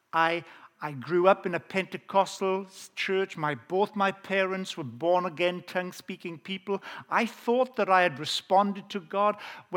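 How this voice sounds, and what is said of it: Welsh accent. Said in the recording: “I have an authentic Welsh accent.”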